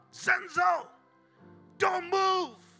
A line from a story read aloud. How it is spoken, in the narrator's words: All of a sudden, my mother yell out